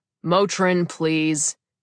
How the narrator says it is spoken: he barked

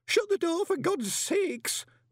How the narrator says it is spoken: moaned Horsefry

